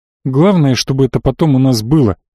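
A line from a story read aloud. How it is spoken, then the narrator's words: Grumble. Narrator (Russian): буркнул парень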